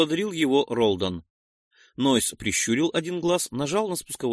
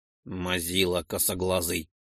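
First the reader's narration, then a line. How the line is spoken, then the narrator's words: Mutter. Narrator (Russian): буркнул Ролден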